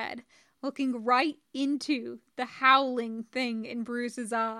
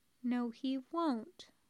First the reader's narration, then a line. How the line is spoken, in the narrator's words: Stark said, quietly, with a small, savage smile